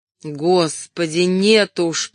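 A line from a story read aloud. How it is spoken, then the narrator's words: Groaning. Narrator (Russian): простонал Эдуард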